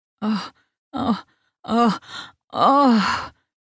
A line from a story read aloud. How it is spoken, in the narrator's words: she moaned